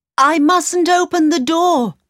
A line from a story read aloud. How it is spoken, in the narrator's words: she cried